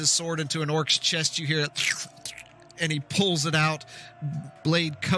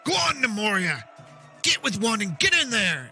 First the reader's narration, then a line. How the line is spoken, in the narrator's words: The commander shouts